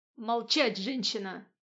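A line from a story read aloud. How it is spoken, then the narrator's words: Demon's menacing growl. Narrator (Russian): угрожающе зарычал демон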